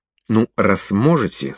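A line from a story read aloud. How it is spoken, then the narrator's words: Through gritted teeth. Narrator (Russian): сказал я сквозь зубы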